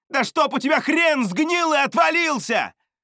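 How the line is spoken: Shouting after someone. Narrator (Russian): крикнул я ему вслед

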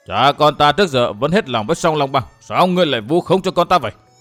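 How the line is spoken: Angry shout. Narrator (Vietnamese): Cưu Thiên Trạng nghe Vân Thiên Bằng chửi con mình thì quát

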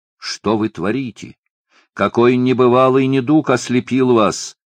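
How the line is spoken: Shout. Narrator (Russian): крикнул Юл

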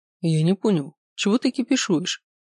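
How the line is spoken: Calm question. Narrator (Russian): спокойно спросил Макс

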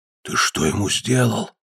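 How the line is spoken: Whisper. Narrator (Russian): шепнул кедога

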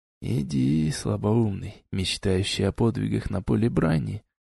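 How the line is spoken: Lone man's whisper. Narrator (Russian): прошептал оставшийся в одиночестве мужчина

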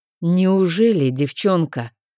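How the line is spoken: Bloodthirsty words through teeth. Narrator (Russian): процедил он как-то, кровожадно оскалившись

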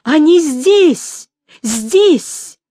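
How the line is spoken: Loud terrified scream. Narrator (Russian): Девушка в ужасе, не сознавая, что делает, громко крикнула

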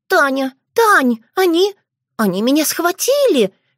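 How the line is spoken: Squeak. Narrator (Russian): пискнула она

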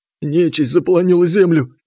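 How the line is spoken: Hoarse wheeze. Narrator (Russian): прохрипел он

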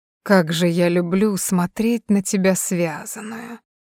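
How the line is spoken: Hoarse. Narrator (Russian): хрипло сказал Тони

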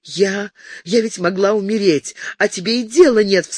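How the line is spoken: Sobbing. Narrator (Russian): всхлипывала она

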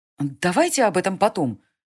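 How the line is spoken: Irritated. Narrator (Russian): раздраженно сказала Селена

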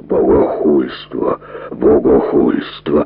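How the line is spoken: Menacing priestly rumble. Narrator (Russian): грозно рокотал священнослужитель

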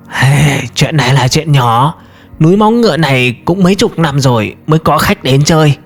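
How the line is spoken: Hoarse old man. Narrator (Vietnamese): Từ Lão Hán ... khàn khàn trả lời

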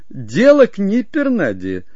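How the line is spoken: Lady laughing. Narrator (Russian): снова засмеялась дама

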